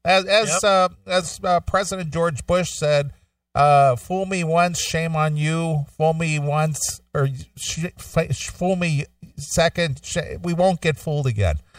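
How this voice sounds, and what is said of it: Imitates another person's voice. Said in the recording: “you said it exactly the way he said it, too. ... Was that an impression? ... That was an impression.”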